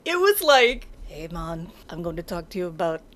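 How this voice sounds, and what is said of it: Bad put-on Rasta accent. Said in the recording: “This is another bad accent moment. ... It's better than the Irish one.”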